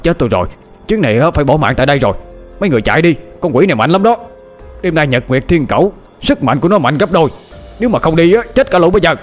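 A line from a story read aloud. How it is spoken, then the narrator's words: Old man crying out. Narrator (Vietnamese): Lão miệng la lên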